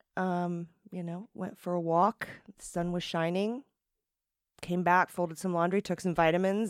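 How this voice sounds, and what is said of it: Slightly hoarse voice. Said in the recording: “I've got like a little bit of some symptoms. ... I've got a little frog in my throat still from last week”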